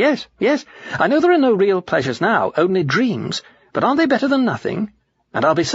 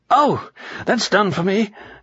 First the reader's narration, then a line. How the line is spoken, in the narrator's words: gasped the ghost